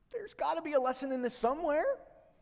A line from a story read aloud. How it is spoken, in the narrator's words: says in a very timid voice